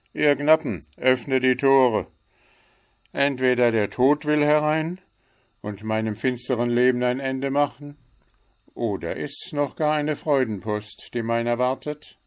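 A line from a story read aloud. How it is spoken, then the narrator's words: Joyful, moved call. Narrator (German): Der finstere Ritter rief freudig bewegt aus seiner Halle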